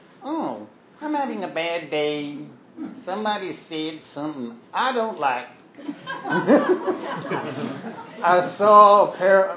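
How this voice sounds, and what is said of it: Put-on Southern-ish accent. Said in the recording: “what accent am I doing? ... it's just very weird. ... Southern something.”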